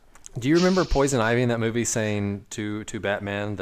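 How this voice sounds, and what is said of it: Usual voice. Nothing is said of it.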